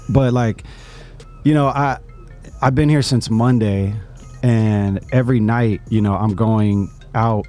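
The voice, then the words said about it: Strained, worn-out voice. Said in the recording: “my voice is gone”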